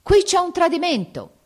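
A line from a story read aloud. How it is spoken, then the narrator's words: Shouting. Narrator (Italian): grida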